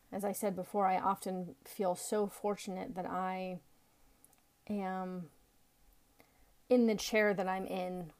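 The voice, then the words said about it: Slightly hoarse, froggy voice. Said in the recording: “I have a little frog in my throat.”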